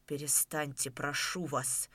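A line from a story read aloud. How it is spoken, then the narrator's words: Very quiet speech. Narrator (Russian): Совсем тихо проговорил Половцев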